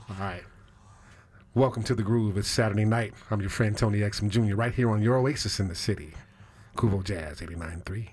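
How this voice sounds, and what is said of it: Smooth late-night jazz radio voice. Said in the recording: “Give me your best jazz voice real quick.”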